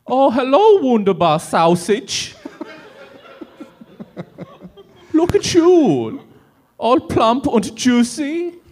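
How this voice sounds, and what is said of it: Put-on German accent. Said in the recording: “in a German accent ... The real test will be seeing if the accent can hold all the way through.”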